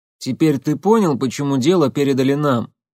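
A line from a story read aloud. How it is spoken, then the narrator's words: Wry snort. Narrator (Russian): хмыкнул Василевский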